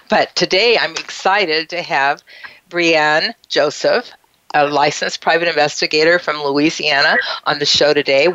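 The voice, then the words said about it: Slightly impaired, strained voice. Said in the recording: “My voice is a little challenged today”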